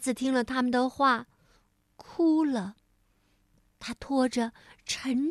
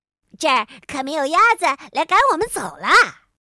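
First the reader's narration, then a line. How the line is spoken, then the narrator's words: Croaking frogs calling. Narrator (Chinese): 青蛙们呱呱的喊着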